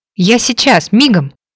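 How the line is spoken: Exclamation. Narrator (Russian): воскликнул Тобби

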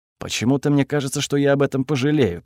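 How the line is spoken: Grumbling. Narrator (Russian): проворчал я

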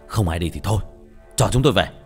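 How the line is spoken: Annoyed shout. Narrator (Vietnamese): Đến bực mình, chú Bình quát lên

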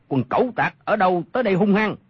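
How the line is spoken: Shout from the darkness. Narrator (Vietnamese): Trong bóng tối có 1 người quát lên

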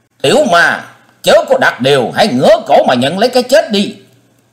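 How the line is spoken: Furious beastly shout. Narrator (Vietnamese): Nhiệt Nhĩ Hầu không dằn được nữa, hét như hổ báo

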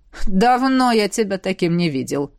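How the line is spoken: Amused snort. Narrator (Russian): хмыкнул Седерик

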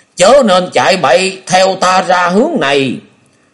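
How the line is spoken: Loud. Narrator (Vietnamese): lão liền lớn tiếng nói

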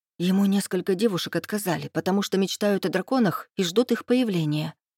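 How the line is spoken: Whispered. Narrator (Russian): шепнула сидящая рядом Софина

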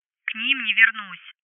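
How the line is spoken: Grumbling female friend. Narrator (Russian): заворчала подруга

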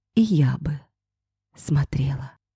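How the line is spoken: Whispered reply. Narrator (Russian): шепнула в ответ

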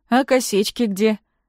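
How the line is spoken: Mocking question. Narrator (Russian): насмешливо спрашивает Никита

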